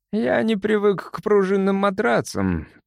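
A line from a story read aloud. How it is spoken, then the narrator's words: Grumbling. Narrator (Russian): проворчал Симс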